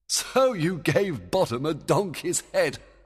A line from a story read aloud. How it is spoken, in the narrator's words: Oberon laughed